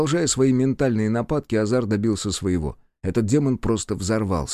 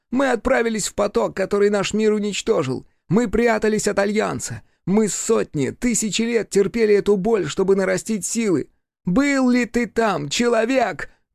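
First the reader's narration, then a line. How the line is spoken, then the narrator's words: Shouting. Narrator (Russian): крикнул он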